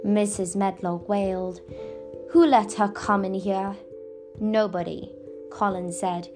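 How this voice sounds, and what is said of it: Usual voice. Nothing is said of it.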